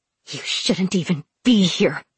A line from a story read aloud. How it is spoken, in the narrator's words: she snarled